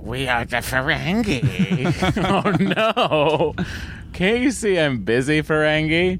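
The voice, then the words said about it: Put-on Ferengi alien character voice. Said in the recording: “It's my new Ferengi voice.”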